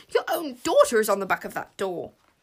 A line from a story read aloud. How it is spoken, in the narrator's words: spluttered the deputy